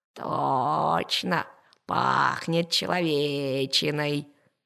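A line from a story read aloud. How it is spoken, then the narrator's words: Purring tiger. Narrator (Russian): промурлыкал тигр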